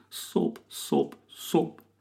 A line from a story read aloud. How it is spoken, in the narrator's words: cries Kev